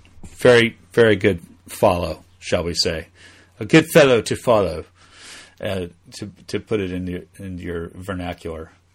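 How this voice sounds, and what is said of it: Bad put-on English accent. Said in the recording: “my worst English accent ever.”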